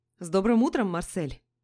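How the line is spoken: Feigned cheerful tone. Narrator (Russian): Начал он наигранно бодрым тоном

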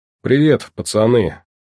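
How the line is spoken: Formal tone. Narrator (Russian): начал он официальным тоном

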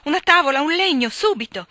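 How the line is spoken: Shouting voice. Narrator (Italian): la voce di Lori gridò

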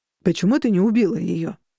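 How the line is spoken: Accusing question. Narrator (Russian): спросил он обвиняющим тоном

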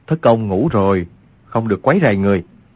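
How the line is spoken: Lowered voice. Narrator (Vietnamese): Quách Tĩnh hạ giọng nói

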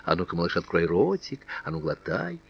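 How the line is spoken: Sly playful coaxing whisper. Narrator (Russian): словно уговаривая капризного ребенка съесть полную ложку, она лукаво и задорно шептала

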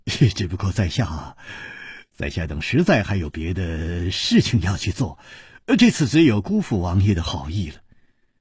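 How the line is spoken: Sighing, wry smile. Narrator (Chinese): 楚留香只有叹了一口气，苦笑着说

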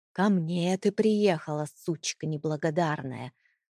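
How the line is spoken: Close-up angry hiss. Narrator (Russian): Прошипел он, уткнувшись лицом почти в мое лицо

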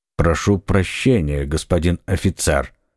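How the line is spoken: Plain. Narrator (Russian): сказал Атос

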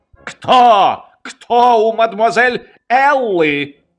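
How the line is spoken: Shout. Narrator (Russian): Он закричал

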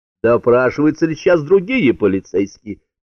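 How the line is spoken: Shouted question. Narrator (Russian): снова выкрикнул первым Баттон

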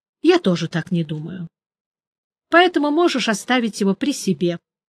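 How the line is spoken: Calm agreement. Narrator (Russian): спокойно согласился Джуфин

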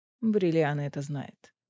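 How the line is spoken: Gloomy. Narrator (Russian): мрачно сообщил Азриэль

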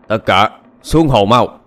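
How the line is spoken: Barked order. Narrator (Vietnamese): Tên đầu trâu quát lên

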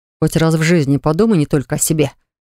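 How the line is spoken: Growling. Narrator (Russian): зарычал на него Ливон

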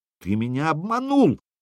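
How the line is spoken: Exclaimed. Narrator (Russian): воскликнул Айзенх

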